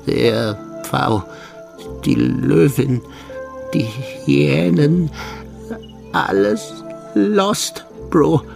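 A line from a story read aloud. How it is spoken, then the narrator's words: Stammering. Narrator (German): stammelte er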